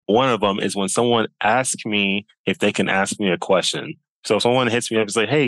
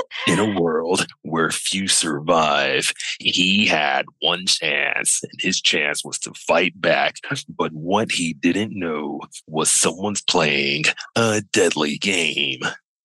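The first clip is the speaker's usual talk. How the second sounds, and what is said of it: Dramatic movie trailer narrator voice. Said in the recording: “That's my movie trailer voice right there.”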